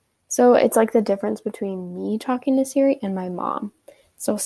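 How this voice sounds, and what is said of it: Usual voice. Nothing is said of it.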